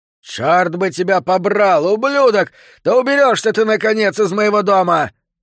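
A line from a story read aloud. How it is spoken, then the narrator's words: Furious yell. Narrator (Russian): завопил Сентос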